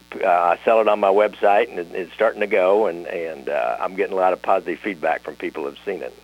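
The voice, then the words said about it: Nasal northwest Missouri twang. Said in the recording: “I have this kind of northwest Missouri nasal twang”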